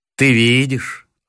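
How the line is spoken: Tender. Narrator (Russian): ласково сказал он

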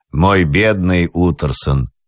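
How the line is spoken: Plain. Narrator (Russian): сказал Джекиль

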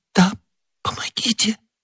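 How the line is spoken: Whisper. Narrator (Russian): прошептала госпожа Бонасье

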